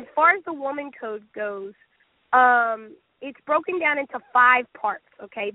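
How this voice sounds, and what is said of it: Sick-sounding voice. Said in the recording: “you could probably hear it in my voice. I am incredibly sick.”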